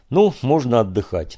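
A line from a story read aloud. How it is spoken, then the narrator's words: Tired speech. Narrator (Russian): устало проговорил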